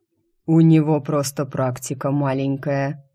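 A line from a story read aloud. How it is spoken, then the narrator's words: Condescending snort. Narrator (Russian): снисходительно хмыкнул некроэльф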